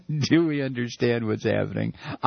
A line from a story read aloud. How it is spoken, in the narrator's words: I laugh